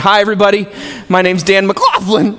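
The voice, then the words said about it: Squeaky high-pitched voice. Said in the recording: “being called squeaky”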